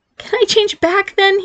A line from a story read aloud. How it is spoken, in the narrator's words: he pleaded